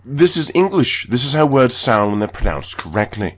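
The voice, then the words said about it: English accent. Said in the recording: “You're putting an accent on there. ... I'm pronouncing things with an English accent.”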